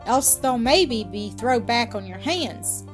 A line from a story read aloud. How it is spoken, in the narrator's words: he added, laughing